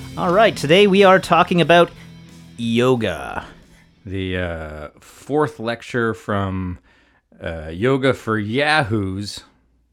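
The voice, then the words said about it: Announcer-style radio voice. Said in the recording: “What is that radio voice I'm using?”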